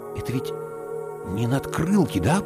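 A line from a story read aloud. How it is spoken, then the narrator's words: Whisper. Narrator (Russian): прошептал я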